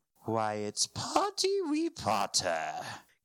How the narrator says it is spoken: cackled Peeves

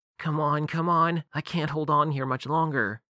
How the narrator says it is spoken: Harriet said through gritted teeth

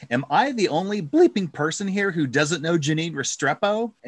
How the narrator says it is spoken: she blurts out incredulously

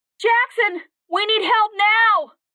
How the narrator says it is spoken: Katie screamed with her mind

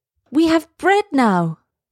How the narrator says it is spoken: they cried

